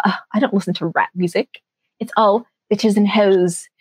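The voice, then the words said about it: Put-on bougie snobbish voice. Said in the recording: “what was that accent? ... I just thought, like, bougie, and it came out.”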